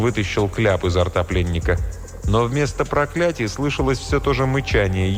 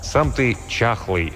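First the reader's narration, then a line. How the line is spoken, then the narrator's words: Plain. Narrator (Russian): сказал он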